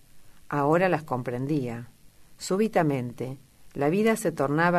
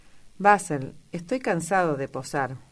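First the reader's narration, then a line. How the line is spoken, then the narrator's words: Exclaimed at last. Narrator (Spanish): exclamó al fin Dorian Gray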